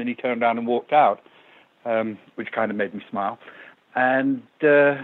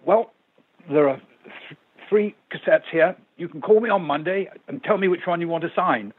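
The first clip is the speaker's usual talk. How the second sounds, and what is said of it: Imperious upper-class English accent. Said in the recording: “with his very imperious Cambridge University accent”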